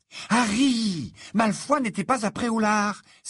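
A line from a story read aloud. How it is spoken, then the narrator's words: Exasperated exclamation. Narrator (French): s'exclama Hermione en tapant du pied, exaspérée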